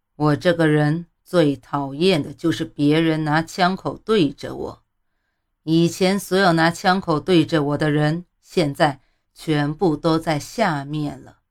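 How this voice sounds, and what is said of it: Icy cold, menacing voice. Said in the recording (Chinese): “用极其冰冷的声音说 ... 冰冷的话语里透着一股子狠劲”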